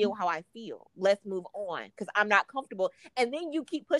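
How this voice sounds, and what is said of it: Usual voice. Nothing is said of it.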